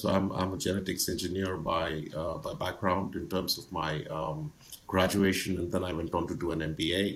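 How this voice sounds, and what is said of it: Indian English accent. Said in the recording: “as you can probably tell from my my accent and my image on your screen, I'm from India”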